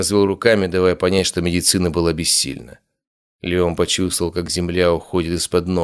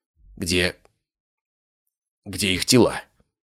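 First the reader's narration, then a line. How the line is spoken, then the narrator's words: Hoarse question. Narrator (Russian): хрипло спросил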